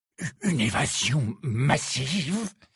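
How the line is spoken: Hoarse voice. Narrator (French): avait répété le Premier ministre d'une voix rauque

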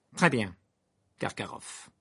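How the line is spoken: Said coldly. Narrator (French): dit froidement Croupton

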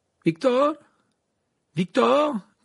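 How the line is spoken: Called out. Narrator (French): cria Harry

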